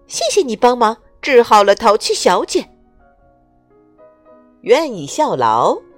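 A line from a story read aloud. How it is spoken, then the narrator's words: Smiling. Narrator (Chinese): 他微笑着说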